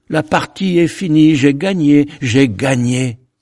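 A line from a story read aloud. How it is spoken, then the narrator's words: Cried out. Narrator (French): cria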